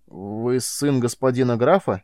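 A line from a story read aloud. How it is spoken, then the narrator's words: Strained, forced out. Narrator (Russian): выдавил из себя Карил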